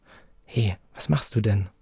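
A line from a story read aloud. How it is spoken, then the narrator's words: Quiet hiss. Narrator (German): zischte ich leise, als würde Mars schlafen und ich wollte sie nicht wecken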